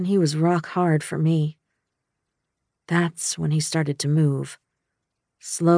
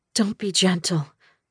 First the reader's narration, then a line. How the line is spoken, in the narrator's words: I groaned